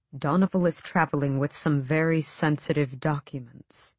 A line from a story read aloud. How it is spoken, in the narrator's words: Aerobin said so quietly that the rain lashing the window nearly drowned out his words